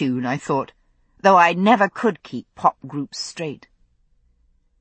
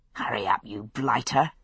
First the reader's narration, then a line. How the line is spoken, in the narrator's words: I muttered under my breath